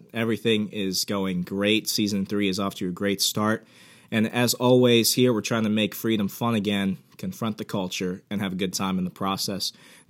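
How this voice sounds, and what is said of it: Hoarse voice. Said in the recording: “my voice is a little hoarse ... my voice is a little bit out there today. I've got a cold.”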